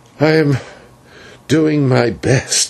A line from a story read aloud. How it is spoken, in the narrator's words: he answered feebly